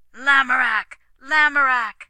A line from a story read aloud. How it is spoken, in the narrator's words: their young fellows shouted